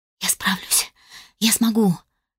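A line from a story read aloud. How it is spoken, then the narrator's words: Whispered to herself, self-encouraging. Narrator (Russian): шептала сама себе, пытаясь хоть как-то приободриться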